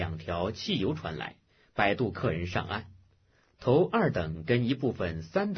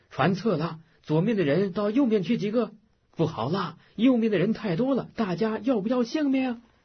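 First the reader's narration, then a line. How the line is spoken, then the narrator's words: Shouts relayed through crowd. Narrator (Chinese): 每句话全船传喊着，雪球似的在个人嘴边滚过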